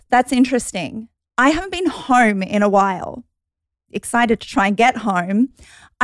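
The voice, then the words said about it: Australian accent. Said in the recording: “you obviously grew up in Australia ... Her beautiful accent ... I love Australians' energies”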